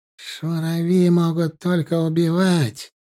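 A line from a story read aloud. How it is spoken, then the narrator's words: Drawl. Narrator (Russian): протянул Мухтар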